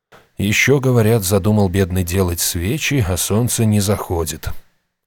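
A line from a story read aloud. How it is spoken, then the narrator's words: Resigned sigh. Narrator (Russian): обреченно вздохнул книжник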